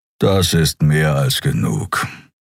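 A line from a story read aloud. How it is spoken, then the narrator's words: Growling. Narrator (German): knurrte er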